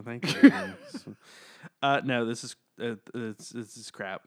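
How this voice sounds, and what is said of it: Usual voice. Nothing is said of it.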